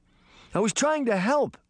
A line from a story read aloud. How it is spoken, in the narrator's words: he cried